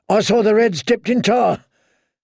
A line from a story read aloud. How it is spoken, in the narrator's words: only a moan emerged, he whirled, shouting